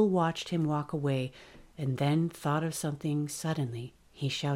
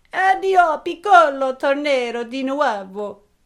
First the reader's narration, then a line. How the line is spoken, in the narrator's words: shouted in Italian